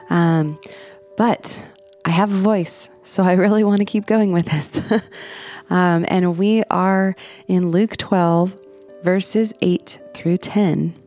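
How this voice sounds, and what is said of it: Congested voice from a cold. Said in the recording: “if you hadn't already heard from my voice, I am battling a little bit of a winter cold here.”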